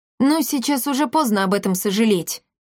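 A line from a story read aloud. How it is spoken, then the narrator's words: Wry snort. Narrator (Russian): хмыкнул Триш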